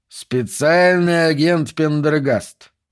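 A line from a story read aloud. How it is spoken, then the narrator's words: Drawl. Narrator (Russian): протянул Брисбейн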